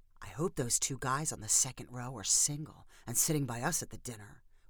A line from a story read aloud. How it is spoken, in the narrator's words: whispered Candace